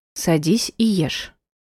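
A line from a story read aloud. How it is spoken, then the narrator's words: Rather stern. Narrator (Russian): довольно строго сказала она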